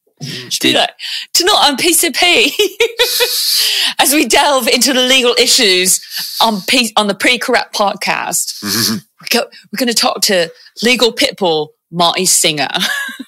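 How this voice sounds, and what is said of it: Fake British narrator accent. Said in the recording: “I want somebody with a fake British accent to do it ... Please just keep talking like that. It's delightful ... Any of our UK listeners are like, please don't. Please stop.”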